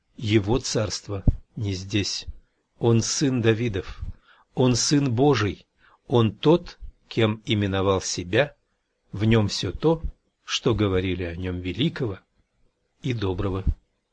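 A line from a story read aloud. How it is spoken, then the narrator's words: Muttering. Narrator (Russian): бормоча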